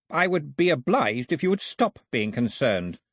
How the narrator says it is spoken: Ataba snapped

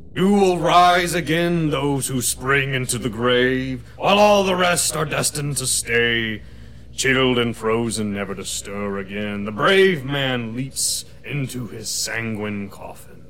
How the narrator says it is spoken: a voice that is not, does not sound entirely human, but booms out above you and says

